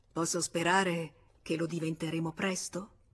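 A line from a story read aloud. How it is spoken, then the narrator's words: Murmur. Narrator (Italian): Lui mormorò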